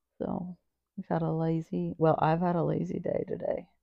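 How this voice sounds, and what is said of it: Sick-sounding voice. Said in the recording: “I'm sick ... My voice sounds crazy”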